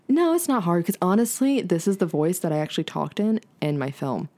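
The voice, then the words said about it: Deeper radio-announcer speaking voice. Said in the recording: “women who have deeper voices, I love the way they sound ... You sound like you should be on like a radio show ... my NPR voice”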